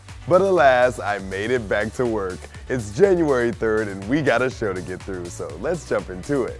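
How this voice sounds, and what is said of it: Hoarse, nearly lost voice. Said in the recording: “my voice is gone”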